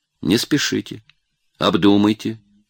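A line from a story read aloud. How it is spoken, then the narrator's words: Plain. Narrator (Russian): сказал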